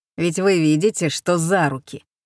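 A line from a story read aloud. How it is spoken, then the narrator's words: Rough reply. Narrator (Russian): отвечал он грубо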